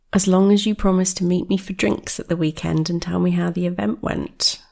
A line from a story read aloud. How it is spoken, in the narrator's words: Rose replied